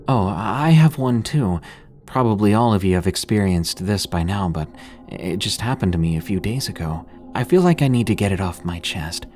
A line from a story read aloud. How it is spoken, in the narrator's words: she said in a sheepish voice